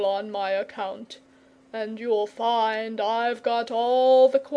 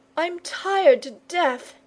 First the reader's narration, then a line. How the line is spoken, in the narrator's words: wailed